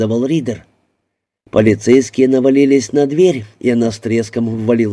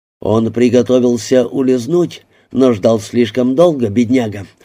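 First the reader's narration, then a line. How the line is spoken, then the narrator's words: Plain. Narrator (Russian): сказал мистер Ридер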